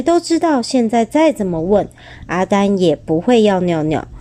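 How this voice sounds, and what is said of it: Usual voice. Nothing is said of it.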